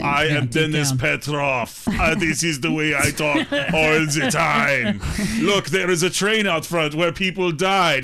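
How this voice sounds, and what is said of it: Put-on Russian accent. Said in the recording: “I wish I could do accents ... what's the difference between a Russian accent and a Transylvanian accent?”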